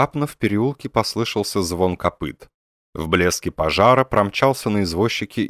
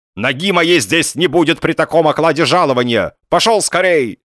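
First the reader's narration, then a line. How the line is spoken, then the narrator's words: Shouting. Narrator (Russian): инженер кричал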